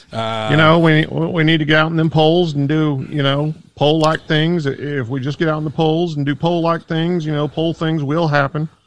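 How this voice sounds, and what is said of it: Politician-style speaking voice. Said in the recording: “you sound like a politician?”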